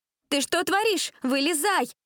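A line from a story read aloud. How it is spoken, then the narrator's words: Shouted. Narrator (Russian): закричала Джессика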